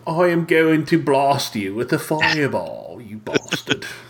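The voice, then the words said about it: Posh put-on British accent. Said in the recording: “Hoity-toity. ... you people from all of you from across the pond who talk with a hoity-toity accent.”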